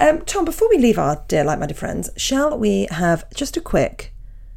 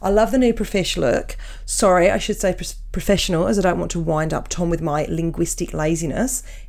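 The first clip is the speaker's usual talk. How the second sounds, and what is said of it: Put-on Australian accent. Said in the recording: “Shall I do the accent or is that offensive? ... I think it's okay to do the accent for Australia.”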